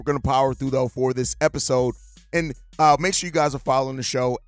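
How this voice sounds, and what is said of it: Hoarse, fading voice from a cold. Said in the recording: “I'm fighting the cold. ... I'm losing my voice.”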